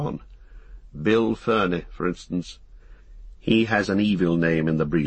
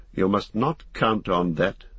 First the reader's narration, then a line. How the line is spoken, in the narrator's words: said Strider sharply